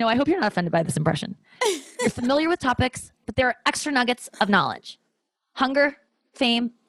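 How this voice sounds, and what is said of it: Usual voice. Nothing is said of it.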